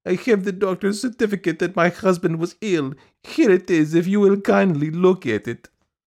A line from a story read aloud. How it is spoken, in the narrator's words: piped Madame Stuchkin in a pitiful voice